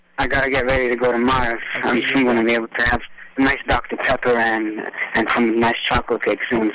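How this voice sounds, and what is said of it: Montreal accent. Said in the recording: “Your accent is from Montreal.”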